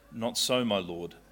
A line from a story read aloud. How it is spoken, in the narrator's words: Hannah replied